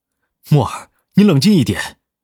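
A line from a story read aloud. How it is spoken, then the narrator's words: Shouting. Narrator (Chinese): 南离川吼道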